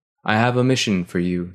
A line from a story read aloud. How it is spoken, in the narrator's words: said His Holiness